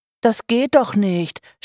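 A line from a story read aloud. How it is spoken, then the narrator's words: Groaning. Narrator (German): stöhnte Norma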